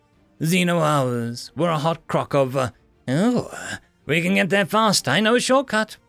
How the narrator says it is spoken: my partner chirped happily

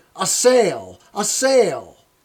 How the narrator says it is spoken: I bit my arm, I sucked the blood, and cried

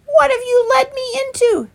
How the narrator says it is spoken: sputtered

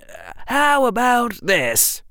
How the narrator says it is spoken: Harry said loudly

